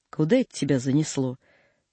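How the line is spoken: Plain. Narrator (Russian): спросил Саушкин

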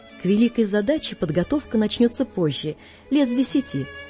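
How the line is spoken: Calm objection. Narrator (Russian): спокойно возражала госпожа Флотова

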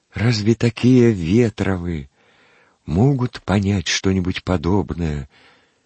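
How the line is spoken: Timid interjection. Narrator (Russian): Робко вставил он мимоходом

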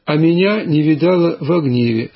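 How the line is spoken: Plain. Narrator (Russian): сказал Авва Иоанн

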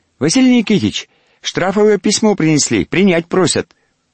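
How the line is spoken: Unexpectedly thin voice. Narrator (Russian): Неожиданно тонким голоском сказал он

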